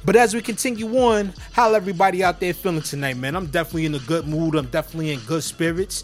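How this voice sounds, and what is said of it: High-energy, upbeat voice. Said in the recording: “You can hear it in my voice. You can tell that the energy is high in here tonight.”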